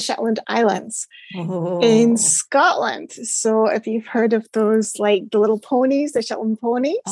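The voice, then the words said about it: Mild Scottish accent. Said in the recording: “I knew you're from Scotland and I love your accent. And thankfully it's not so strong that I can't understand you.”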